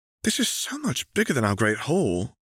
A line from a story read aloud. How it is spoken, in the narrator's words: gasped Hermione